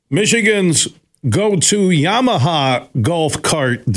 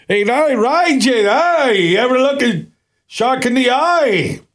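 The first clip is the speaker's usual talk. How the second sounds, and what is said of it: Put-on Irish accent. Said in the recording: “Where's the Irish accent coming from?”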